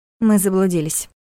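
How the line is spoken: Gloomy announcement. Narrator (Russian): мрачно объявила Лиля вместо брата

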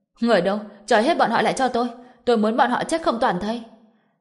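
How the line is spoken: Shocked loud shout. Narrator (Vietnamese): Vân Minh Quân mới phản ứng lại được từ trong sự kinh ngạc, lập tức hét lớn

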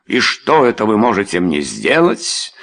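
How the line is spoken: Angry reply. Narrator (Russian): злобно ответил тот

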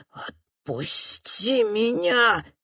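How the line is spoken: Exhausted wheeze. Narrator (Russian): хрипит тот из последних сил

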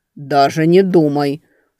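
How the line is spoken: Growl. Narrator (Russian): рыкнул Горыныч

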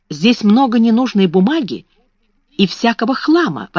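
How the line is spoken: Exclaimed. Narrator (Russian): воскликнула она

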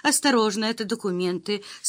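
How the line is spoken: Calm explanation. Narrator (Russian): спокойно объяснила секретарша

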